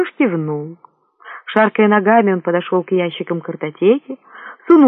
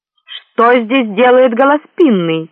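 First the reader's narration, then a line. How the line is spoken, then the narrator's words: Barked from behind. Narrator (Russian): рявкнул позади него чей-то голос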